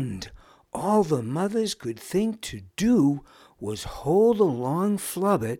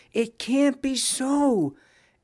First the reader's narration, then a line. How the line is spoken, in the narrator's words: anxiously muttered many